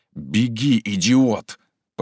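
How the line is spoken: Hissed. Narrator (Russian): прошипел парень в ватнике

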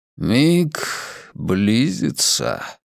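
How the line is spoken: Solemn pronouncement. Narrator (Russian): торжественно произнёс Сек Хардин, истинный глаз мирового древа

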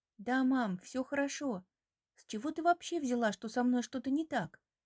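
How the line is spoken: Calm voice. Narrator (Russian): Спокойным голосом говорит Настя

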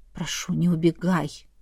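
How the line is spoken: Breathed out. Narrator (Russian): Выдохнул

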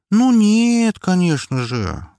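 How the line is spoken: Drawled. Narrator (Russian): протянула она

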